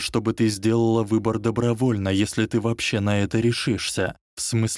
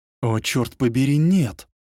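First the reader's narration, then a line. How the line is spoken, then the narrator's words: Exclamation. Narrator (Russian): воскликнул Гарри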